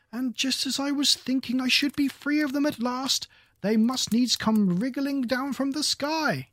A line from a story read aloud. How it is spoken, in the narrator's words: continued the pigeon, raising its voice to a shriek